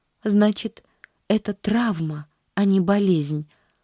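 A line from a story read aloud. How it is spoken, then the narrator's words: Sighing at last. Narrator (Russian): вздохнула наконец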